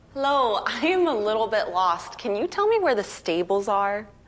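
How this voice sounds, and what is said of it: American accent. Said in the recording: “From America. ... Accent gave me away, huh?”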